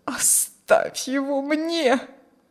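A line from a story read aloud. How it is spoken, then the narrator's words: Moaning. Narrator (Russian): стонал Каримский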